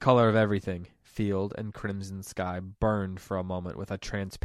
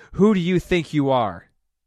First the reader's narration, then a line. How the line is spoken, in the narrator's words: A final surge of fury shook her, and she roared